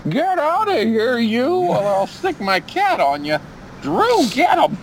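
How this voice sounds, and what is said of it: Old cranky lady voice. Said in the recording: “my new Shane imitation ... That's a pretty good Shane imitation ... Sounds like an old, bitchy lady.”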